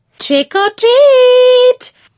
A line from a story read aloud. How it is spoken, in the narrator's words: cried the girls